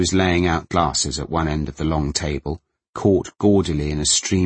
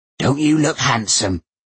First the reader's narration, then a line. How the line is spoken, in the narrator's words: she croaked